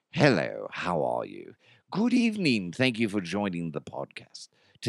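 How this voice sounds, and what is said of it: Put-on British accent. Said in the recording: “I was doing a British accent ... I can do a British, be like”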